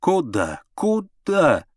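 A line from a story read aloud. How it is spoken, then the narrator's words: Alarmed shout. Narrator (Russian): закричала она, когда Миша запустил руку в корзину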